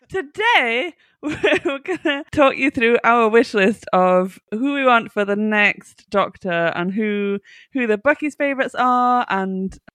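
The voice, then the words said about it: Northern English accent. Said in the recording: “You can hear that from my northern twang.”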